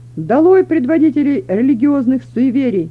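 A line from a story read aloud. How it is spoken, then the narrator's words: Full-force shout through loudspeaker. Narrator (Russian): закричал он изо всех сил в громкоговоритель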